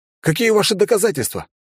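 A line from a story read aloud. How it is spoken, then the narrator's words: Indignant yell. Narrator (Russian): На всякий случай возмущенно завопил я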